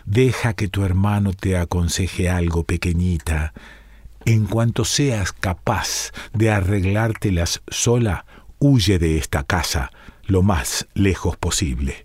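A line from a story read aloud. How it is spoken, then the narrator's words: Loving whisper. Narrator (Spanish): le susurró al oído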